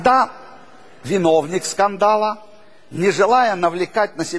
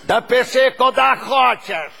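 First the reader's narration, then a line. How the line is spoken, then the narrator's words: Shouting driver. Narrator (Russian): кричал водитель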